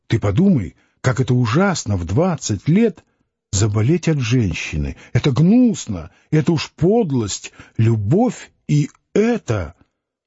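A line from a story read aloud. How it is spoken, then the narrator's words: Nervous, indignant whisper. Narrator (Russian): Нервно вздрогнув, она заговорила возмущенным шепотом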